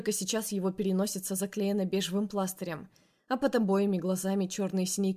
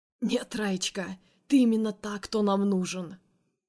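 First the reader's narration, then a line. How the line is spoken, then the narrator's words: Hoarse drunken laugh. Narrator (Russian): Хрипло смеется он, обдавая мое лицо алкогольными парами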